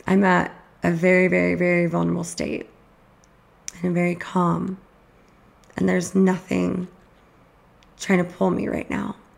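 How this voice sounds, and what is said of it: Scratchy, tired-sounding voice. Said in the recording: “my voice is getting scratchy ... My voice gets like this at night anyways”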